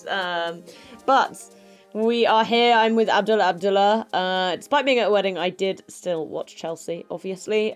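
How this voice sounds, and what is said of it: Rough voice, lower than usual. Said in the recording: “my voice is a bit rubbish ... I spent a number of hours doing karaoke last night ... my voice had dropped uh, by a couple of tones”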